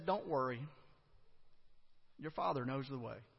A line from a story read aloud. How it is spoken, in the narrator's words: his mother gently said